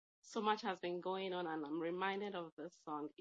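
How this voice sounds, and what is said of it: Voice affected by a cold. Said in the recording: “I'm not sure what my voice is sounding like. I'm just getting over a cold”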